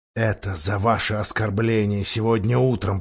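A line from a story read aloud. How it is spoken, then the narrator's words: Whispered. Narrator (Russian): прошептал он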